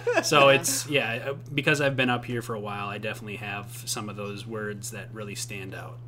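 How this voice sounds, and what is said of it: Minnesotan accent. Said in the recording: “Why does it kind of sound Minnesotan or Canadian ... he is a Minnesotan. I hear it now.”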